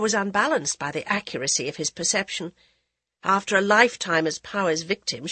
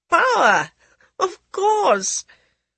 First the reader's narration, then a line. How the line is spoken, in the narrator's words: There was a genuine delight in Maharaja Pratap's laughter